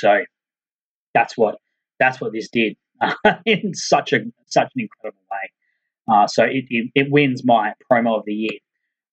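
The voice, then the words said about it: Hoarse, strained, fading voice. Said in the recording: “Boy, I am losing my voice.”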